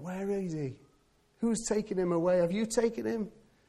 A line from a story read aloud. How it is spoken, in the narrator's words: she cries out